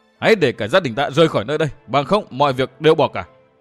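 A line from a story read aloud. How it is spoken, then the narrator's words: Furious hiss. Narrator (Vietnamese): Dương Viễn rít lên căm giận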